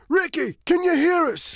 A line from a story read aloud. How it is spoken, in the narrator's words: shouts Tony